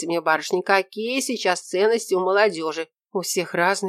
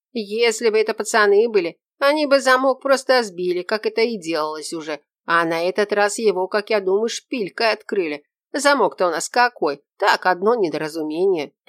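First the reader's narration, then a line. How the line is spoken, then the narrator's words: Grumbling old man. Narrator (Russian): проворчал дед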